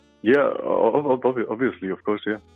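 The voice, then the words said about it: Flat, monotone voice. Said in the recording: “sorry for my monotone voice all the time, but I'm really nervous, I have to say, and this always gets monotone”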